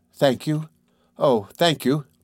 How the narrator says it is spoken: She stammered

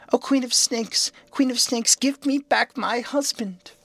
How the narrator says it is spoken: the princess still stood in the doorway and never moved, but cried again

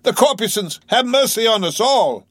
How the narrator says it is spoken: immediately shifting his tone, he cried

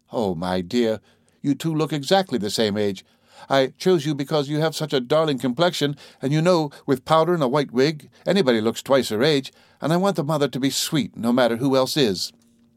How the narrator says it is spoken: pleaded

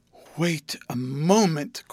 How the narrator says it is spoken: cried Mr

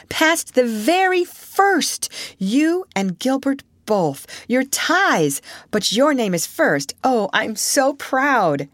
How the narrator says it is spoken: she cried

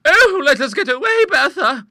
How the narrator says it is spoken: cried Monica, in abhorrence

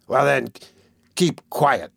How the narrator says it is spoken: rejoined Sykes, with a growl like that he was accustomed to use when addressing his dog

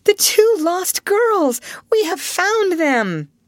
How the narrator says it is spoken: Alice found her voice and cried

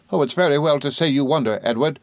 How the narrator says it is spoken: cried my mother

